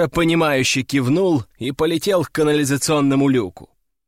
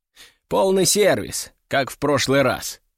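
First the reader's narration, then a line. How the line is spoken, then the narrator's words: Plain. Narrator (Russian): сказал я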